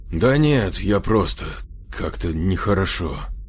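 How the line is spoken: Sighing. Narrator (Russian): вздохнул

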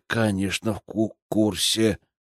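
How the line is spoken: Slightly unsure. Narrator (Russian): чуть неуверенно произнес он

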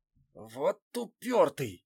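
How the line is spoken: Exhaled. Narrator (Russian): выдохнул

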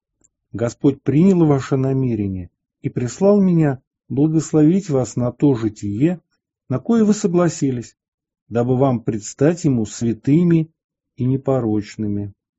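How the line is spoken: Smiling, tender speech. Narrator (Russian): Улыбаясь, он ласково проговорил им

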